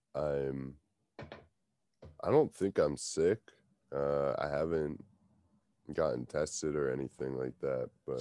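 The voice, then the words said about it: Stuffy, congested voice. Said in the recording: “my voice sounds worse than normal ... Maybe I'm just stuffy or something”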